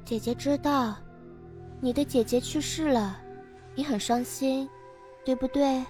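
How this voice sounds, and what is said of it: Quiet, gentle soothing voice. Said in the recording (Chinese): “小声但温柔的说”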